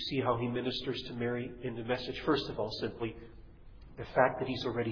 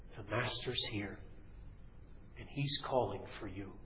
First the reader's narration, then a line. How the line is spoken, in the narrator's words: she whispers in Mary's ear